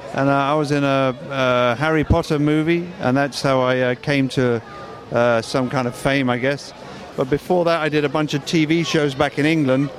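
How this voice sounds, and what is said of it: English accent. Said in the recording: “I'm English. You can probably tell by the funny accent.”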